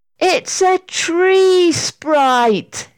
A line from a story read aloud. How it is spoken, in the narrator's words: shouted Sarah, as she suddenly realized what she was looking at